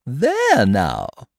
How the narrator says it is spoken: she exclaimed

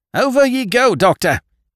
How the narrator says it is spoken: he yelled at me

